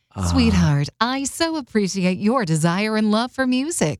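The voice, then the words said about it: Sweet, nurturing mom voice. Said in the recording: “I'm giving you the mom voice answers.”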